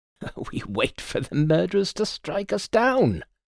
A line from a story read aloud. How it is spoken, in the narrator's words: My employer chuckled softly and said